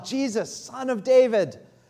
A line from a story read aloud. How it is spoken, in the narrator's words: he begins to shout out